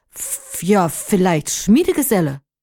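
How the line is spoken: Flustered old man stuttering. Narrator (German): er war so verdattert, dass er stotterte

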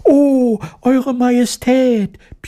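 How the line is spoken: Overlapping squeaky voices. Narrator (German): piepsten sie durcheinander

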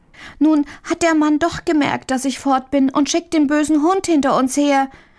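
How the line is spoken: Little girl calling out. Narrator (German): rief die kleine Marie

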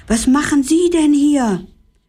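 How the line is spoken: Called out. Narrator (German): rief

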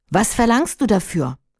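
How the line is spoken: Plain question. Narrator (German): fragte die Prinzessin

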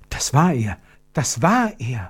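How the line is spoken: Whisper. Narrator (German): flüsterte Gertrud

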